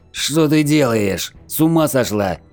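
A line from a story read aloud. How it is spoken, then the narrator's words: Shouted. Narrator (Russian): закричал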